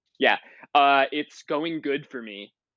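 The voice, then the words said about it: Put-on, carefully enunciated podcast voice. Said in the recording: “let me just get my podcast voice on because I don't sort of want the home audience to know that I'm gay right off the bat ... Is it an enunciation?”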